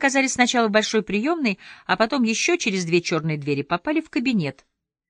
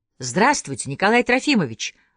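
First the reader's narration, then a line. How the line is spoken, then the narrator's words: Joyful greeting. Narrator (Russian): радостно приветствовал начальника Полищук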